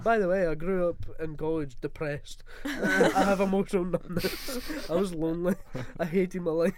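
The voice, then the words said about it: Poor imitation of another person's voice. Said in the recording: “That's not a good impression”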